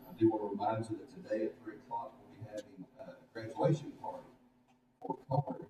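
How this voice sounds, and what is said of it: Strained, failing voice. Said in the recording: “my voice is about to go”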